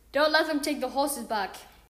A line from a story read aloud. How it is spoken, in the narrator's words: He shouted